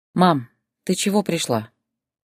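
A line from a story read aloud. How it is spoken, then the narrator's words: Weary question. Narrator (Russian): устало спросила Зоя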